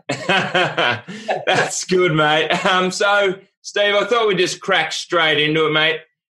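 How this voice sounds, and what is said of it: Distinctive regional accent. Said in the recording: “I've been looking forward to it, just so I can listen to your accent.”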